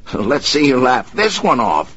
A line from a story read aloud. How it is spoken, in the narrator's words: shouted